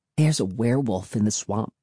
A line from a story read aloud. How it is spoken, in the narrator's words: Cassie said, lowering her voice